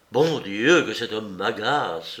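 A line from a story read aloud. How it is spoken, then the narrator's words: Sighing. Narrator (French): soupira René Larrié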